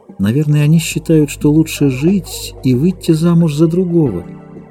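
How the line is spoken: Calm. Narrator (Russian): спокойно проговорила о Томми

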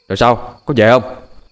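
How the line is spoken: Barked shout. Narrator (Vietnamese): Hiệp quát

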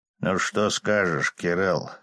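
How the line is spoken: With a snort. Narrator (Russian): хмыкнув, демон

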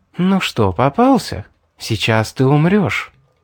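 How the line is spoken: Whisper. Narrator (Russian): прошептала

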